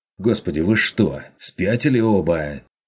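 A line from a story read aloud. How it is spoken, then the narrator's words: Angry interruption. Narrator (Russian): Зло оборвал его фон Зайденберг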